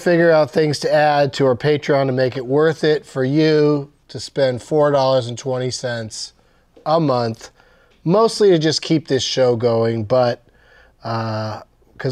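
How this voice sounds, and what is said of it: Slow, drawn-out speech. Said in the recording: “that's probably why I'm talking so slowly.”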